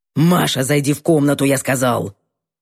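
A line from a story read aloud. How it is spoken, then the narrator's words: Growled. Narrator (Russian): Рыкнул Гордеев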